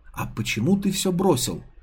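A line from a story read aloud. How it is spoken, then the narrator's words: Whispered question. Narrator (Russian): шепотом поинтересовалась блондинка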